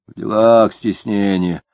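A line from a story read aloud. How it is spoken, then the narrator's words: Sullen growl. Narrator (Russian): угрюмо зарычал Денисов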